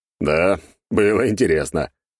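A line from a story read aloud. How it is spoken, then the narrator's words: Short laugh. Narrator (Russian): хохотнул я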